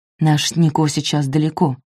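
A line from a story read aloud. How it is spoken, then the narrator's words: Whispered. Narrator (Russian): шепнул он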